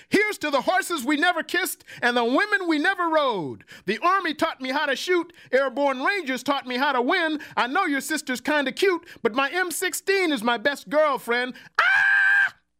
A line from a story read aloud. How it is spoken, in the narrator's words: The soul brother attached to the black hand smiled, sat down noisily on the bar stool next to me and shouted